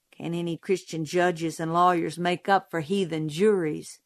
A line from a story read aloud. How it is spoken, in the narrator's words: Jim muttered